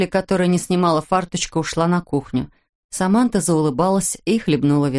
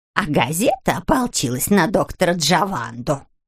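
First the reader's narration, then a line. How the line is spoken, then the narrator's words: Creaky voice. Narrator (Russian): проскрипела она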